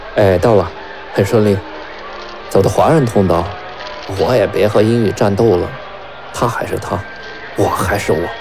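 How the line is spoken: Gentle voice over phone. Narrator (Chinese): 话筒里传来吴婷温柔的声音

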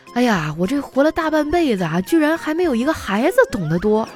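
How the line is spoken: Laughing man. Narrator (Chinese): 这男子……又大笑了起来，说

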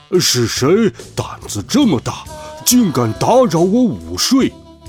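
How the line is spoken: Devil roaring. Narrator (Chinese): 魔鬼咆哮道

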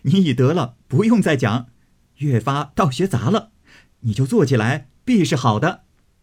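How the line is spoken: Laughing heartily. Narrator (Chinese): 宝玉大笑道

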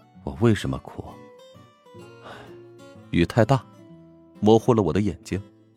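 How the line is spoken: Weary weathered voice. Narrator (Chinese): 乔治声音有些沧桑的解释道

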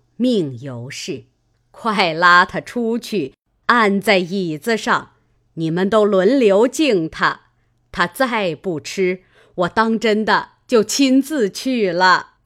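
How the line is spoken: Laughing. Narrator (Chinese): 贾母笑道

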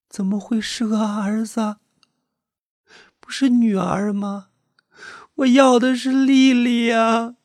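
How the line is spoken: Weak mother crying. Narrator (Chinese): 身体已经非常虚弱的妈妈还是哭出了声音

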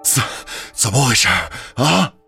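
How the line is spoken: Breathless. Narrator (Chinese): 外面一个人气喘吁吁的说道

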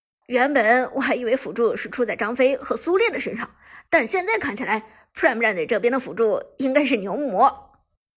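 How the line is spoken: Laughing heartily. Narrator (Chinese): 子豪哈哈笑着说道

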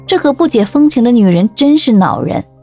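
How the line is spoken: Inner sigh. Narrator (Chinese): 我猜想他一定在心中仰天长叹

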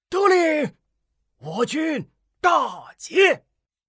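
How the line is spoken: Shouting in unison. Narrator (Chinese): 众将齐声喊道

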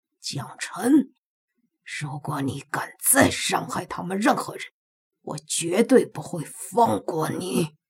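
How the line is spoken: Through gritted teeth. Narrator (Chinese): 他咬牙切齿的说道

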